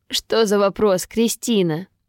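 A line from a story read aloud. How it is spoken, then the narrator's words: Laughing. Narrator (Russian): рассмеялся Ян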